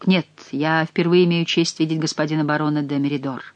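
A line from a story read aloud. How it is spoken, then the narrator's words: Calm reply. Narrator (Russian): спокойно ответил Бюсси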